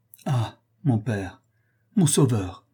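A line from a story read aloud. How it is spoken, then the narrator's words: Warm cry. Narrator (French): s'écria chaleureusement le vicomte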